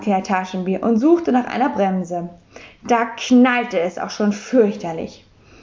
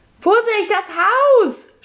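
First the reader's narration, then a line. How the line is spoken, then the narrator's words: Shouting. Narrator (German): schrie das Sams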